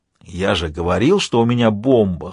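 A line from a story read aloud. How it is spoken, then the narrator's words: Hoarse whisper. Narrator (Russian): хрипло прошептал Альфа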